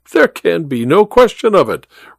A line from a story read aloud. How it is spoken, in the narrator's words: replied the Count